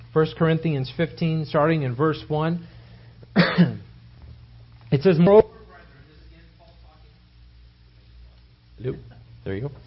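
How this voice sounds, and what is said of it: Hoarse, failing voice. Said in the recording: “I'm losing my voice.”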